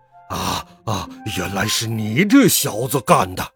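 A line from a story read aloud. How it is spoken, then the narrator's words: Furious roar. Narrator (Chinese): 老棕熊先生火冒三丈，吼叫道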